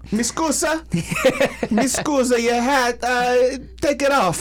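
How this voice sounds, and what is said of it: Put-on Italian accent. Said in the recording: “I don't even know what a Greek accent is. ... I just assumed it. I just went Italian.”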